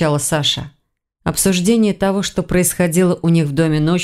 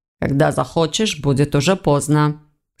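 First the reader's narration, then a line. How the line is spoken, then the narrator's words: Stern curt retort. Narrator (Russian): строго отрезал Войтых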